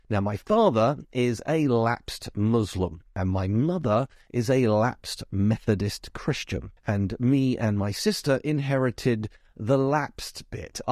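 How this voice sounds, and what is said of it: Southeast British English accent. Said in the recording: “you can tell from my accent that I've clearly been brought up in Britain, probably the southeast”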